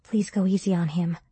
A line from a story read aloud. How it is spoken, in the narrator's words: I said quietly